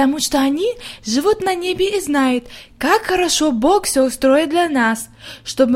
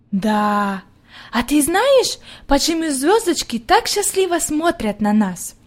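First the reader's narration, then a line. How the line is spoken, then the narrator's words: Plain. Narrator (Russian): спросила Хайди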